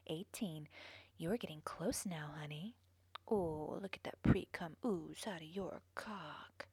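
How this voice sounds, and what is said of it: Sultry, seductive voice. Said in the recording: “Does my sexy voice”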